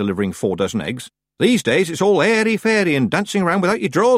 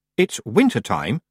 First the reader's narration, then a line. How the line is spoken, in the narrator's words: she said coldly